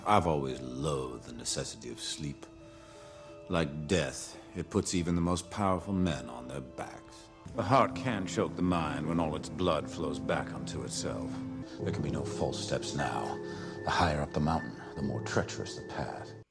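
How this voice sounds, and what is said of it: Kevin Spacey's invented Frank Underwood accent. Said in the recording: “is Kevin Spacey playing Congressman Frank Underwood in House of Cards ... there's been linguists really angry about his accent ... that accent doesn't actually exist”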